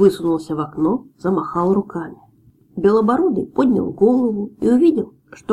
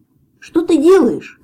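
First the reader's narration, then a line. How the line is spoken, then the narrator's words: Shouting. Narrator (Russian): крикнул он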